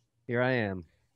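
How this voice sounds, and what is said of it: Flat monotone delivery. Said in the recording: “sounding as excited as usual ... I'm using this monotone. It's sort of a baseline.”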